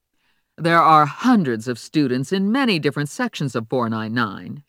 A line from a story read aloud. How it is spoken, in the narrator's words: she said scornfully